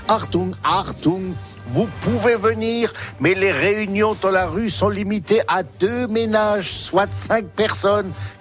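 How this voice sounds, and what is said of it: Put-on German Baden-Württemberg accent. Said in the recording (French): “reconnaissable à mon accent du Baden-Württemberg”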